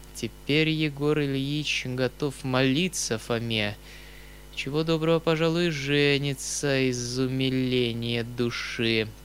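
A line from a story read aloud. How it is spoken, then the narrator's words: Through gritted teeth. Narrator (Russian): прибавил он сквозь зубы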